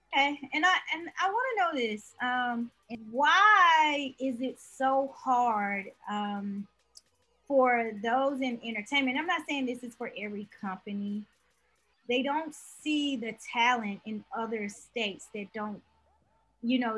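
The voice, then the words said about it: Mississippi Southern accent. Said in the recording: “I'm from Mississippi. I don't know if you can hear the accent in my voice.”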